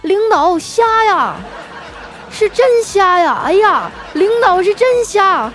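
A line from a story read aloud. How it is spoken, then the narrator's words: Loud shouting. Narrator (Chinese): 大声的喊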